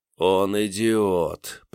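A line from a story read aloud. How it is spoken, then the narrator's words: Groaning. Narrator (Russian): простонал наконец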